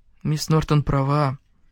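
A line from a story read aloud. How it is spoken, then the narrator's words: Mutter. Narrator (Russian): пробормотал Квентин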